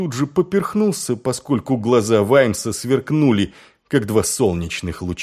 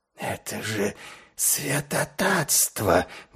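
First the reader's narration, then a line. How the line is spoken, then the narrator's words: Breathless exclamation. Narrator (Russian): выдохнул вампир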